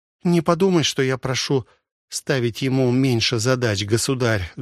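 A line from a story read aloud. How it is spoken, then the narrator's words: Sad, young woman. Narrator (Russian): грустно говорила молодая графиня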